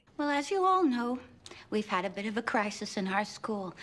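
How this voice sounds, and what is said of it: New York accent. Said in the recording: “She's got this very, you know, New York accent. ... Such a New Yorker.”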